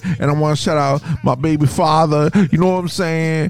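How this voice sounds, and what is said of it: Impersonates a TV show shout-out caller. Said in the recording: “that's a Video Music Box impersonation.”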